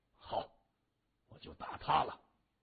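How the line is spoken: Deep, low voice. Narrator (Chinese): 三眼儿沉声说

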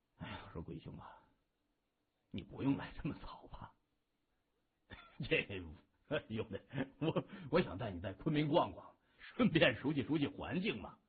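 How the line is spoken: Soft sigh. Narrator (Chinese): 谢文东轻叹口气

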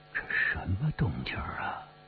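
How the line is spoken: Murmuring. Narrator (Chinese): 我忍不住喃喃地说

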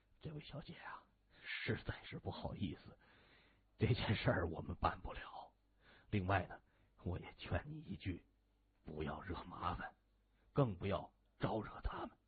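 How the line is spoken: Hurried, low, bitter smile. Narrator (Chinese): 那名警察急忙，面带苦涩的笑容，他低声说

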